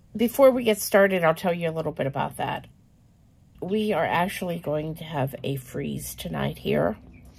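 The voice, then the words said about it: Voice cutting in and out. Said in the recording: “As you can hear, my voice is wanting to go in and out.”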